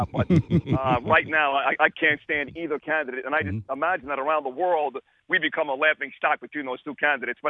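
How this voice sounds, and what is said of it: Classic New York accent. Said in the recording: “He's a classic New Yorker”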